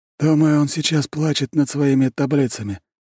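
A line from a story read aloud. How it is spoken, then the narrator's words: Hoarse reply. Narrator (Russian): хрипло отвечает тень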